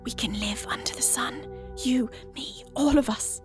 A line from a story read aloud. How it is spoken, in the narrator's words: whispers